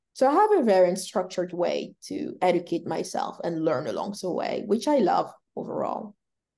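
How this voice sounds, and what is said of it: Speaks English with an accent. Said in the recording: “I have absolutely enjoyed listening to your accent”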